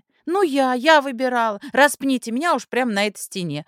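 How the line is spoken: Shouting from corridor. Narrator (Russian): орала Зойка из коридора

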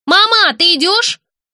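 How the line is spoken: Shouted. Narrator (Russian): крикнула Настя

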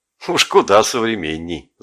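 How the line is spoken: Laughing. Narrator (Russian): засмеялся я

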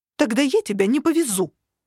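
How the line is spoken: Offended bark. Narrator (Russian): обиженно рявкнула она

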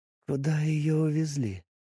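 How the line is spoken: Hoarse, quiet, strained voice. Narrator (Russian): Она говорила хрипло и тихо, едва выдавливая слова

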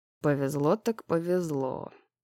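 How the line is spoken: Muttered. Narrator (Russian): пробормотал Дек

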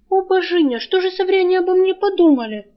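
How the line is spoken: Groaning. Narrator (Russian): простонала она

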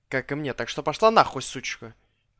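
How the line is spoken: Snapped. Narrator (Russian): огрызнулся

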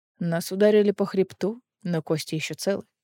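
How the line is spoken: Plain. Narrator (Russian): ответил Эдион

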